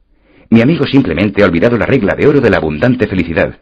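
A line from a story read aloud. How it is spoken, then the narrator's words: Plain. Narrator (Spanish): me dijo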